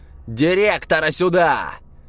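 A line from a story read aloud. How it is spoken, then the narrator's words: Loud shouting. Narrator (Russian): Пузатый кричал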